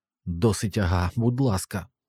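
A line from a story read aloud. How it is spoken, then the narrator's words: Hoarse trembling voice. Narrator (Ukrainian): сказав хрипливим і тремтячим голосом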